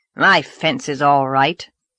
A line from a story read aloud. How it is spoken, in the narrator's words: snapped Mr